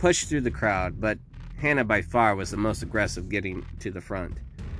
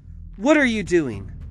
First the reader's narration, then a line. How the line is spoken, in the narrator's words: Hannah called out